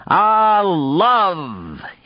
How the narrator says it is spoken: shouted down the long tunnel

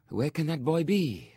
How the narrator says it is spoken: sighed

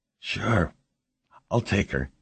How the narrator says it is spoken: Jamie said, his voice shaking

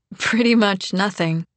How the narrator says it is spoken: Helen laughs

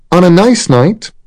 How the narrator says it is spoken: said Moira, raising her voice to be heard over the rain

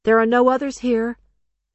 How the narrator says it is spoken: the girl shouted after him

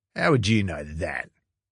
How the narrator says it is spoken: Ash snapped

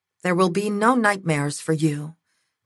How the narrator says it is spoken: Tenzin whispered

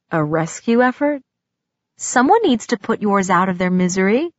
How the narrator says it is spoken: His voice held a smile when he asked

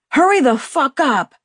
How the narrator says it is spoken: Max screamed

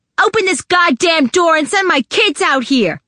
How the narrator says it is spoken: Naomi yelled

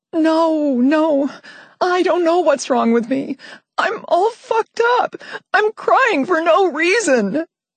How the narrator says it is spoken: I sobbed

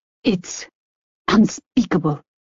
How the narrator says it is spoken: Ami Lee hissed

